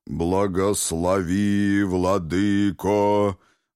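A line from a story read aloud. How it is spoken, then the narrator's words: Booming deep bass. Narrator (Russian): гудит низким басом диакон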